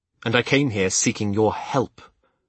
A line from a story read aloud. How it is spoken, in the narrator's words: I reminded myself bitterly